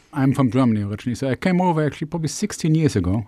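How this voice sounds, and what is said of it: German accent. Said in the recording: “your name and accent that you're not originally from Plymouth”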